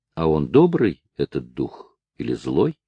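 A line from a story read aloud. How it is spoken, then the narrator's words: Plain. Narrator (Russian): спросила Элизабет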